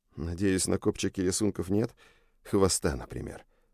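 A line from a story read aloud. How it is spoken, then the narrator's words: Muttered. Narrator (Russian): пробормотал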